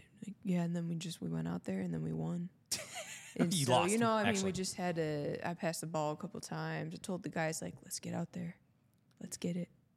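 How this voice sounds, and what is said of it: Uninspired, flat impression of another person. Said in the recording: “My impression with him, Marcus Mariota? ... I've never been less inspired in my life than even just watching him talk about his inspiration.”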